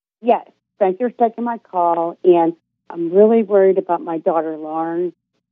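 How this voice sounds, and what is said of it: Pittsburgh accent. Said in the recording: “Pittsburgh, I can tell. ... It's the accent.”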